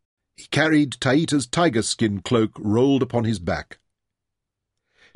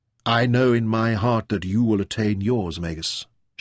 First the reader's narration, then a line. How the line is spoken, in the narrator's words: replied softly